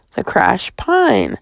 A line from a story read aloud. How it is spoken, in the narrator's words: Thess murmured